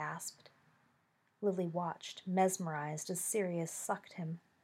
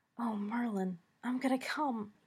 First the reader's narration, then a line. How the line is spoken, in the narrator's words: he gasped